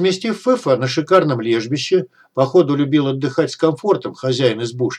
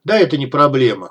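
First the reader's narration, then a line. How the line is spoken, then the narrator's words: Chuckled. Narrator (Russian): хохотнул Дегтярь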